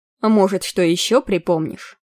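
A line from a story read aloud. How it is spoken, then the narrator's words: Calm old man. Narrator (Russian): спокойно сказал старичок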